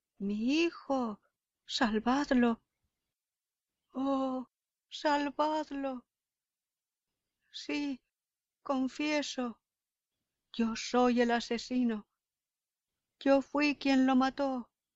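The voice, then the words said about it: Frantic shouting like a madman. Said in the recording (Spanish): “gritó Nicolás con el acento de un loco”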